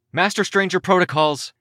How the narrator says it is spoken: I shouted

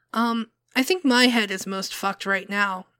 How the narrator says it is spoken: Colt said, her voice wavering

